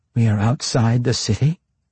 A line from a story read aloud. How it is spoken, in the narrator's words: Quenthel asked, her voice a bit unstable